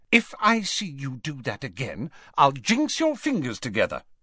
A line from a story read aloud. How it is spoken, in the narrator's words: she said sharply